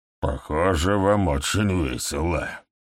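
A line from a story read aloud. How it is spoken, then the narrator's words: Spiteful. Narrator (Russian): злобно произнес Гэм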